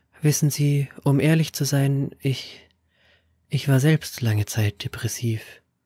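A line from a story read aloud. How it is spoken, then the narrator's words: Quiet admission. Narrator (German): gab sie leise zu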